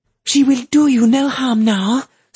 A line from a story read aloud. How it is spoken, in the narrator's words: Sul M cried